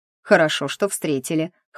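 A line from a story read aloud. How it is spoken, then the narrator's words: Wry snort. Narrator (Russian): хмыкнул мужчина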